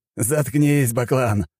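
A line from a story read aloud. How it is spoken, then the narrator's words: Roaring with laughter. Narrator (Russian): расхохотался в ответ Алексей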